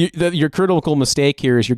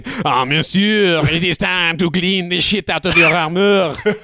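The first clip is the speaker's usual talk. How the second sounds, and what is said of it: Mock French accent. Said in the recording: “you're giving him Baz British English accent, where it's French.”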